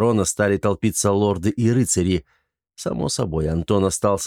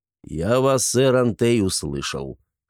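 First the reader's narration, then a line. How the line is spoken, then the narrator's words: Dry. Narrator (Russian): сухо произнес барон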